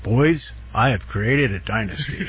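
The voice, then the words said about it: Impression of speaker's father. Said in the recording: “you do a pretty good impression of your father there. That's not too bad.”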